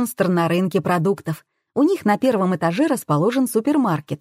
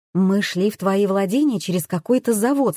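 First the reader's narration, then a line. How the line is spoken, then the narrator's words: Plain. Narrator (Russian): сказала я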